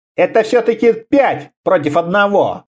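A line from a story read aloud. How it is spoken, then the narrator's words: Grumbling. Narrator (Russian): проворчал Абериус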